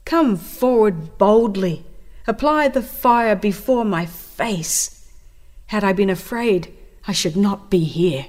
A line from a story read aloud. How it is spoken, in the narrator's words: the martyr exclaimed